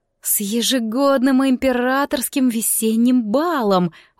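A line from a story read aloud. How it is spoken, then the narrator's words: Breathless woman. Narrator (Russian): выдохнула Рейли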